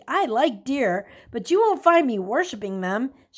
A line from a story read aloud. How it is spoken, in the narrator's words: she said with a laugh